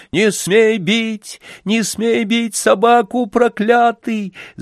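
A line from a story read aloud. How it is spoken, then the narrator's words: Frenzied shout. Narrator (Russian): закричал в выступлении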